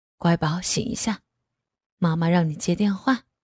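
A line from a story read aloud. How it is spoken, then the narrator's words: Gentle, tender. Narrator (Chinese): 男人眼眉间十分温柔，说道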